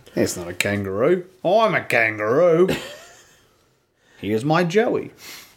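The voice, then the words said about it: Put-on Australian accent. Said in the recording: “If my accents are offensive to any Australians, I apologize. But I'm not going to stop doing them.”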